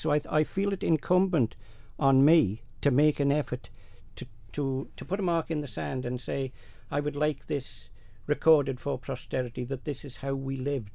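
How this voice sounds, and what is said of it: Northern Isle of Man Manx accent. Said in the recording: “your accent ... You're from the north of the island ... we don't talk like him. It's regional”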